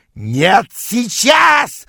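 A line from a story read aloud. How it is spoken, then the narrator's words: Yelling. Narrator (Russian): завопил он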